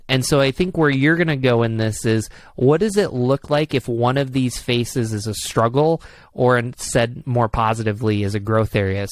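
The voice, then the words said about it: Upstate New York accent. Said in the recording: “I got my upstate New York accent going.”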